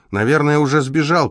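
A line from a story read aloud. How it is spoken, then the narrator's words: Shouted. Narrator (Russian): крикнул он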